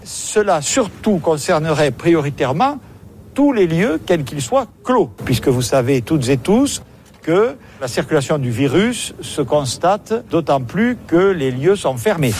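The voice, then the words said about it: Southern French accent. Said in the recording (French): “quand j'entends Castex ... l'accent du Sud”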